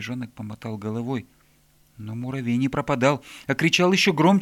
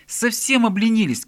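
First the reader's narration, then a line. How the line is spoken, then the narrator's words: Ant shouting. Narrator (Russian): кричал муравей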